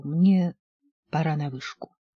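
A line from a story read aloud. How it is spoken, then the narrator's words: Muttered. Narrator (Russian): Я вздрогнул и, поспешно отпустив Джин, пробормотал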